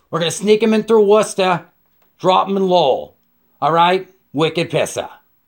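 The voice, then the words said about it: Put-on New England accent. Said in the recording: “the New England accent”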